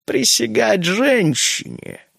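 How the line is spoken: Sarcastic drawl. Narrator (Russian): протянул он язвительно

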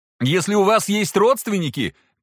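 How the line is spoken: Shouting after someone. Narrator (Russian): крикнул Алексос ей вслед

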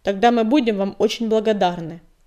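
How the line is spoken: Grumbled. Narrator (Russian): проворчал Метеор

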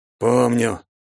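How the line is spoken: Through gritted teeth. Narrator (Russian): процедил ответ Вяземский

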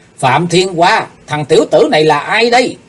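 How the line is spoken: Sudden loud shout. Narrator (Vietnamese): kiếm khách Phạm Thiên Hoa đột nhiên hét lớn

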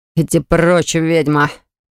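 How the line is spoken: Growled. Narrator (Russian): Прорычал гад

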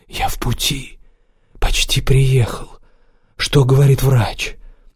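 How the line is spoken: Very quiet reply. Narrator (Russian): А Хюнцу очень тихо ответил

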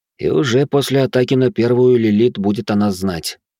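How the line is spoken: Heavy sigh. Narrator (Russian): тяжело вздохнул

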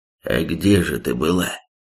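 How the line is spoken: Stunned, barely squeezed out. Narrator (Russian): Еле выдавил из себя опешивший Зардрак

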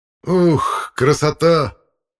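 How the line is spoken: Shouted exclamation. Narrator (Russian): выкрикнул я

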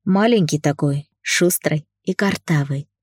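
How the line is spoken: Smiling. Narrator (Russian): улыбнулся я

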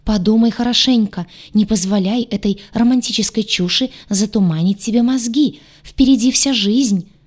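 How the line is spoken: Yelled. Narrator (Russian): завопил Гадюша

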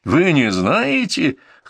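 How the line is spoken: Scoffing snort. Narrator (Russian): хмыкнул Сергей Октябринович

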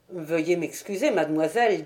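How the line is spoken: Brusque. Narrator (French): dit-il d'un ton brusque

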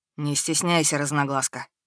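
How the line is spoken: Quiet speech. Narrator (Russian): говорит тихо

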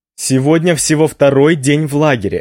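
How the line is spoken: Overly loud reply. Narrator (Russian): отвечаю я, вероятно, излишне громко

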